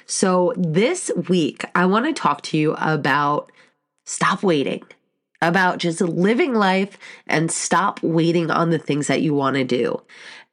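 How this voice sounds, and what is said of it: Stuffy, congested voice. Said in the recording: “my voice sounds a little bit off, I have been sick all week last week ... I'm still kind of stuffy”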